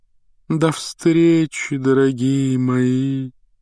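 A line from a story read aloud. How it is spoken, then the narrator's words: Sepulchral breathy exhale. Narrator (Russian): за могильным голосом выдохнула Трелони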